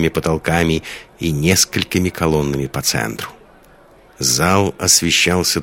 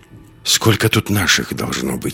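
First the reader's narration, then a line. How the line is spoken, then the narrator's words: Whisper. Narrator (Russian): шепнул Андерс Лиске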